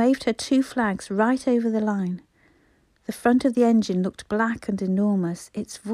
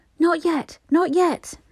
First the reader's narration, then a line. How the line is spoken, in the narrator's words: But Bobby cried